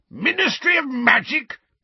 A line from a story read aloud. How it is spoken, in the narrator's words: bellowed Uncle Vernon